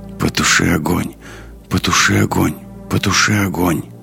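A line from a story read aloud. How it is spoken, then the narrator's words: Strange muttering voice. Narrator (Russian): странный голос, бормочущий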